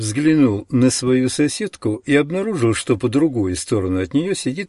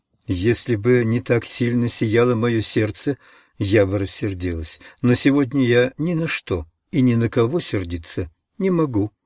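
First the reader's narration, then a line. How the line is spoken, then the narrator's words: Plain. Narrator (Russian): ответила она мне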